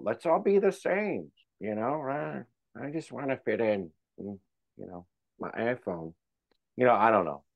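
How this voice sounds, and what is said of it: Bad nerd voice impression. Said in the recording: “That was my bad nerd voice”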